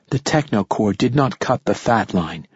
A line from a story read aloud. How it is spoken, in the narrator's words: she said softly